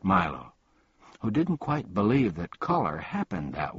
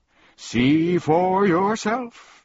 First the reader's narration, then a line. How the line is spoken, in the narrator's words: roared Chroma